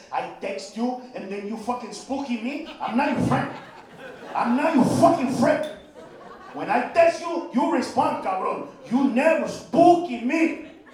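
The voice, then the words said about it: Imitates father's thick accent. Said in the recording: “My father's accent is so thick”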